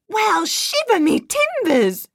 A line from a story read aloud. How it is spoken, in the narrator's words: cried Nate